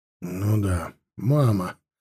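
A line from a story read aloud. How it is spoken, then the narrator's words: Mumbling. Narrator (Russian): пробормотал отец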